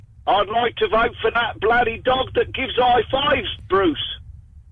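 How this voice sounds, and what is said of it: Poor fake Australian accent. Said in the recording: “putting on a rubbish Australian accent”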